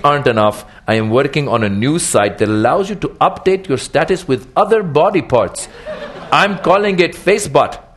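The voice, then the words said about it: Toned-down put-on ethnic accent. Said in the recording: “your ethnic accents ... I toned the accent down intentionally”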